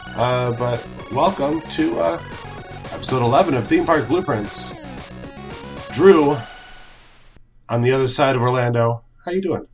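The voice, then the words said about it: Sick-sounding, under-the-weather voice. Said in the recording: “as you can probably tell from my voice, a little under the weather”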